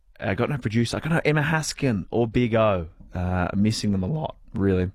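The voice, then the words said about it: Voice cracking slightly. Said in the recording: “That's just the crack in the voice.”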